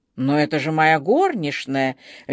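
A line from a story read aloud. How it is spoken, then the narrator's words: Icy tone. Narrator (Russian): ледяным тоном проговорила она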